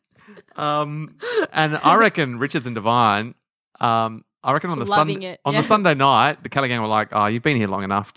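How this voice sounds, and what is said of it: Put-on New Zealand accent. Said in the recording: “It's from New Zealand. ... Whenever they do skits, they're from New Zealand. ... put on my skit voice.”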